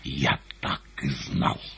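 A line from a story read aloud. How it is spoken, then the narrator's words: Angry hiss. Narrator (Russian): лицо его перекосилось, и он не прошептал, а прошипел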